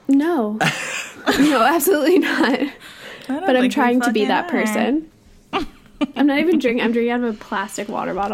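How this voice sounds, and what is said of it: Nasal, congested sick voice. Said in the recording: “I'm sick. I'm sorry if my voice sounds nasally AF.”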